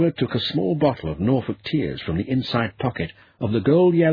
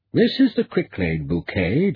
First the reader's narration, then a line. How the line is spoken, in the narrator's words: Joshua said smoothly